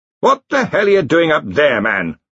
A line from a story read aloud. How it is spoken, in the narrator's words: Ridcully bellowed